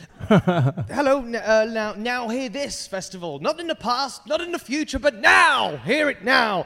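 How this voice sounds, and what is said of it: British accent. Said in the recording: “got a British accent, which means that everything I say sounds more educated”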